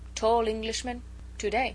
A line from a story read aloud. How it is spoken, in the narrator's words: he said very slowly